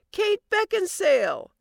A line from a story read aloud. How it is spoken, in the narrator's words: a complete stranger once shouted out of their car window